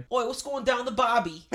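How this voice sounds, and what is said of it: Put-on Australian accent. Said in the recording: “Do Australian.”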